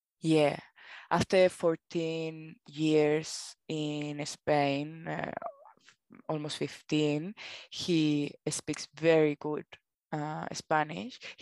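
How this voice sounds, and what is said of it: Spanish-accented English. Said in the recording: “He has a big accent, like I do. I have my Spanish accent”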